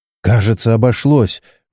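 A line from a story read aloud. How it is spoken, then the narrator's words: Relieved exhale. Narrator (Russian): выдохнула Чен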